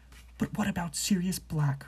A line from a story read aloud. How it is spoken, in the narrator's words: Hermione hissed